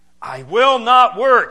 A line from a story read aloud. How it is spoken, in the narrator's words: he cried in desperation